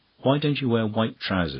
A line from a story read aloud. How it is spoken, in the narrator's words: she asked